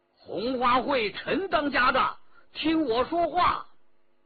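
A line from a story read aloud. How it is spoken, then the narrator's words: Someone calling out. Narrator (Chinese): 有人叫道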